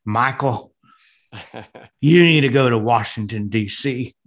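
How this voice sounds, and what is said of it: Partial deep Southern accent. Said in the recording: “I can't do his full accent, but he has this great Southern deep voice.”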